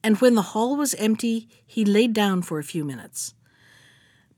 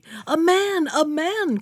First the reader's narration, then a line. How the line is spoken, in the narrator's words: cried she